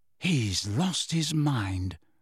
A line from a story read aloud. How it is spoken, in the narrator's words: said Ron in an almost awed voice